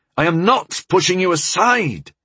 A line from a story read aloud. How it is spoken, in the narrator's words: I said, raising my voice